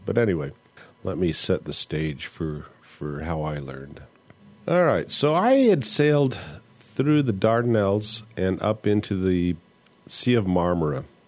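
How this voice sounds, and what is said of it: Voice not at its best, some coughing. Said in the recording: “I'm getting over a cold, so my voice is not particularly good, and I end up coughing a little bit while I'm talking here.”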